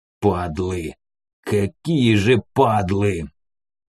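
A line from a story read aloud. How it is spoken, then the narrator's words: Angry growl. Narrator (Russian): прорычал Корнет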